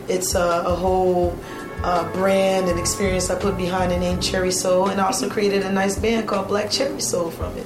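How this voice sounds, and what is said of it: Louisiana Creole accent. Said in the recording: “It sounds like you have an accent ... Oh, absolutely. I'm from a Creole Voyez Indian parish in Louisiana”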